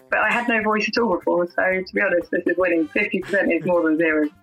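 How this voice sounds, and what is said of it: Rough, half-lost voice. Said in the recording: “I'm about 50% there, as you can hear from my voice that sounds like I'm an extra in EastEnders”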